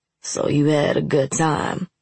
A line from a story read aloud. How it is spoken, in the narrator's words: Nace growled